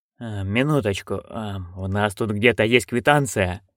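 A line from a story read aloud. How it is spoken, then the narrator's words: Mumbled. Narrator (Russian): пробормотал Хью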